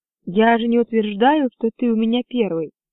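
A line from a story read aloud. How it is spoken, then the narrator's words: Calm. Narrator (Russian): Корлис спокойно ответила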